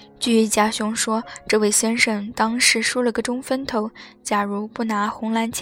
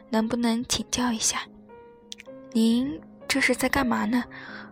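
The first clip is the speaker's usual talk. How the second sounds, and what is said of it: Quiet, hushed question. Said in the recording (Chinese): “小声问道”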